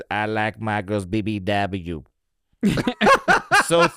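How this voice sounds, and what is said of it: Imitates another person's voice. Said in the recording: “Drake says ... That was a good impression.”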